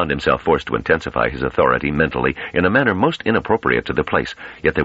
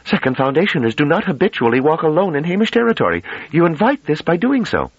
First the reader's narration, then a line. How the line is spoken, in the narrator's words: Dullarmy cried out